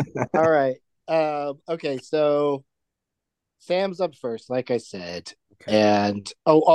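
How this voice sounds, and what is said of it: Usual voice. Nothing is said of it.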